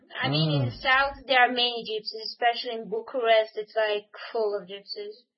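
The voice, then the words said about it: Romanian accent. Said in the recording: “I guess your accent was Romanian.”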